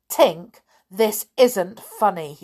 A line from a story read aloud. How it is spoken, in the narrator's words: cried